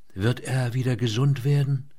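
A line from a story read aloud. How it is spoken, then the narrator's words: Uncertain questioning voice. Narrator (German): Mit unsicherer Stimme fragte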